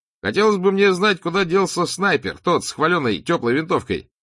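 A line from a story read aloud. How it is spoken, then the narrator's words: Cheerful shout while running. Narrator (Russian): весело выкрикнул Поль Герми во время очередной пробежки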